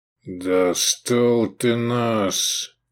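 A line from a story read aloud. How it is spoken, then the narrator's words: Growling. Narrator (Russian): прорычал Сергею легионер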